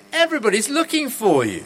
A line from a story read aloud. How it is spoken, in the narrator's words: they exclaimed